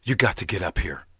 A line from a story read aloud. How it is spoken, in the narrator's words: Tracy panted